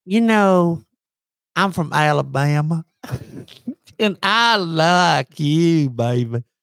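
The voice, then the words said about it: Put-on Alabama Southern accent. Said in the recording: “Alabama cheerleader? ... Accents.”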